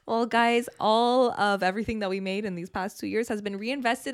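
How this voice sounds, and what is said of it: Raspy, hoarse voice. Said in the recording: “my raspy bronchitis voice”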